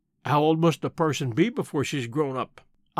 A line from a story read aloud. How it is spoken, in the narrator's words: I asked gravely